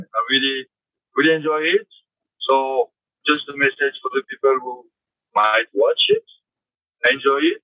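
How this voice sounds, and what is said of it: Speaker's own accent. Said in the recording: “my accent”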